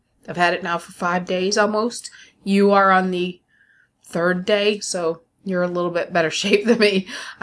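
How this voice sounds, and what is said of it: Voice of someone with a cold. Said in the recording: “I've had a cold. I don't know if you heard that. It's clickety-clack in my mouth because I have a cough drop. ... I have a cold.”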